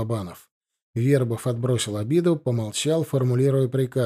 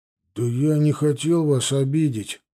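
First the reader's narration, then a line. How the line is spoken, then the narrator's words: Mumbling. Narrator (Russian): промямлил Пинчук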